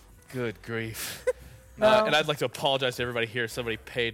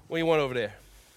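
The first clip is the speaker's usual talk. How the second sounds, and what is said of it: Put-on Chicago accent. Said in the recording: “make me do a Chicago accent”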